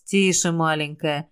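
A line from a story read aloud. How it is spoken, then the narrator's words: Whisper. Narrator (Russian): прошептал я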